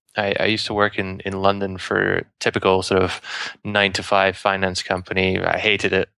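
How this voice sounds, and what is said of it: Accent not sounding British. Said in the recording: “I'm from the UK, despite my accent.”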